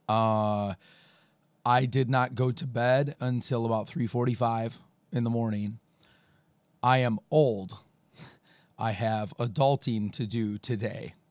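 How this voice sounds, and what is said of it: Hoarse, nearly lost voice. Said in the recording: “As you can hear, my voice is gone again.”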